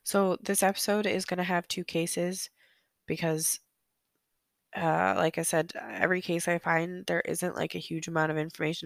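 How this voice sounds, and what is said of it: Sick, hoarse voice. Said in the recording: “I'm a little sick again still. I sound worse than last week even. ... Probably losing my voice too.”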